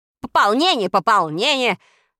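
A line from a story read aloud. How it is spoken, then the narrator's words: Irritated interruption. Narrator (Russian): раздраженно перебил его министр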